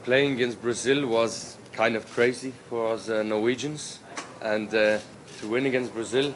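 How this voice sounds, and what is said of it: Yorkshire English accent. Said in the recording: “you can hear there, he's kept the Yorkshire accent, obviously”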